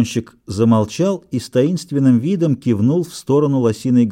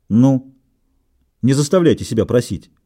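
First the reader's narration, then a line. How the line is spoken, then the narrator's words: Sharp. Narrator (Russian): резко проговорил Скотт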